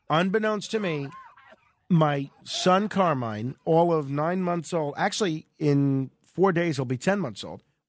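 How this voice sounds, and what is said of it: Slightly congested voice from a cold. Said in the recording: “As you can hear, I have a little bit of a cold.”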